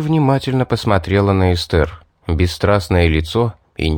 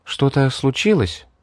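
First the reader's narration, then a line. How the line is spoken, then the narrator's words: Quiet question. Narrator (Russian): тихо спросила Мэри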